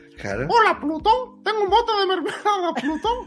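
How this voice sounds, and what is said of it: Imitates Mickey Mouse voice. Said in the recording (Spanish): “haz una imitación de Mickey ... Es horrible, es horrible”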